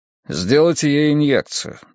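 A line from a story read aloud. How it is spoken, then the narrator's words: Impassive voice. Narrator (Russian): бесстрастным голосом произнес он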